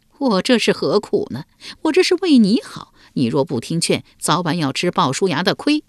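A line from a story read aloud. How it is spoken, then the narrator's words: Wry, bitter smile. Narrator (Chinese): 树雕苦笑道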